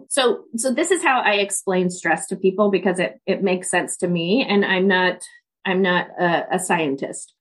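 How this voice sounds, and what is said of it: Stuffy, sick-sounding voice. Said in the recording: “I have a cold.”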